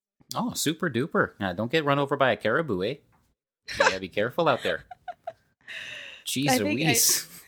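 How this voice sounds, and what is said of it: Put-on Canadian accent. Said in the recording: “That's a really good accent. ... Canadian light”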